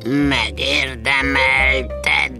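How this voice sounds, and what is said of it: Creaky voice like an old door. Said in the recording (Hungarian): “Nyekerekte a fa olyan hangon, mint amikor egy vénséges ajtó kitárul”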